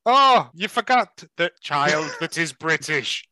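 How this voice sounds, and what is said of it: Put-on accent, unclear which. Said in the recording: “I wasn't sure what accent you were going for there.”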